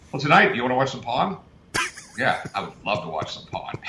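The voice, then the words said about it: Put-on British accent. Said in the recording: “the British accent thing”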